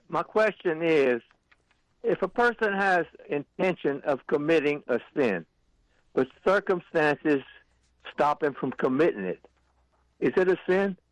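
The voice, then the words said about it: Louisiana accent, Lafayette area. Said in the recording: “do I hear Lafayette or Crowley in your accent? ... Lafayette, Bill Platt, Louisiana.”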